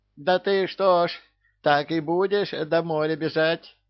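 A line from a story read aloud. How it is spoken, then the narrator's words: Shouting after someone. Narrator (Russian): кричала Ягусева вслед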